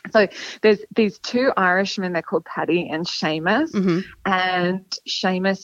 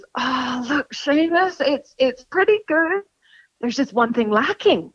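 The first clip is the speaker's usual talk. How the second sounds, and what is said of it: Put-on Irish accent. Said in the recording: “I should be doing the Irish accent already.”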